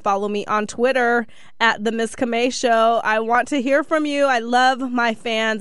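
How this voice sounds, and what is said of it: Slightly scratchy voice. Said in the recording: “My voice is still a little scratchy.”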